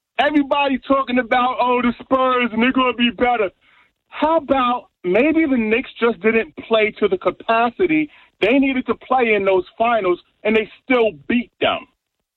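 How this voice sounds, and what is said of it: New York accent. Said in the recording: “if you can tell from my accent, I am from New York”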